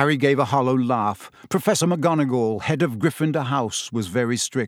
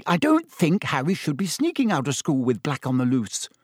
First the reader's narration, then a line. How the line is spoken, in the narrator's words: said Hermione sharply